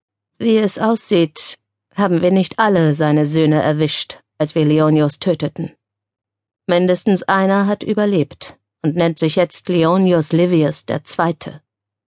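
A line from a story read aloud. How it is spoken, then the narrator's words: Gloomy explaining voice. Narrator (German): Mit düsterer Stimme erklärte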